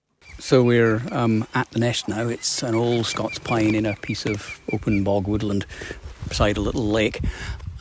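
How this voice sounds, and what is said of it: Scottish accent. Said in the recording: “he's from Scotland, which will explain his accent”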